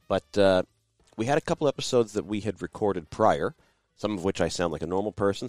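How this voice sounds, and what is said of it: Congested voice from a cold. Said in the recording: “the way my voice sounds today. I am suffering from a seasonal cold ... a very bad head cold”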